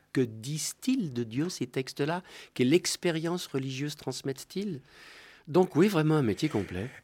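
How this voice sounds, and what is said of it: Swiss French accent. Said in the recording (French): “on vous reconnaît à l'accent, vous venez de Lausanne”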